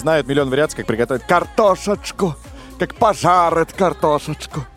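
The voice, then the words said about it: Parody accent. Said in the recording (Russian): “акцент у тебя? Что за говор? ... это уникальная сейчас была, ну, просто пародия.”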